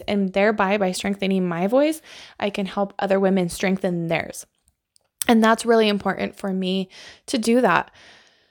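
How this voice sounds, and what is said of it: Out of breath, excited speech. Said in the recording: “I'm out of breath because, oh, this just fires me up so much”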